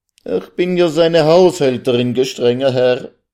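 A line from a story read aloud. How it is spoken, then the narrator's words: Sobbing cry. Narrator (German): Unter Tränen und Schluchzen rief sie endlich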